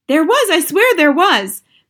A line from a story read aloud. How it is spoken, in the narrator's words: the man was shouting back